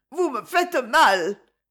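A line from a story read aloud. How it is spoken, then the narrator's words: Stammering. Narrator (French): bégaya Irène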